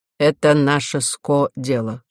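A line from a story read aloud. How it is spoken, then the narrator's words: Dry reply. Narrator (Russian): сухо ответил Милодар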